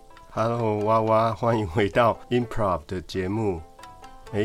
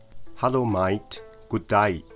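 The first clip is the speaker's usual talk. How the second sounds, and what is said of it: Put-on Australian English accent. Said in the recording (Chinese): “刚才的澳洲口音学得像吗”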